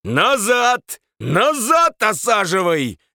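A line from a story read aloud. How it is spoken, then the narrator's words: Booming yell. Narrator (Russian): зычным голосом заорал он на водителя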